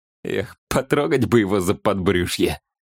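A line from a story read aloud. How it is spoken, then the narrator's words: Predatory laugh. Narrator (Russian): Он хищно засмеялся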